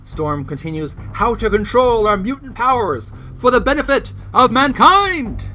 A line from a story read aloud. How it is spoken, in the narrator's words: She yells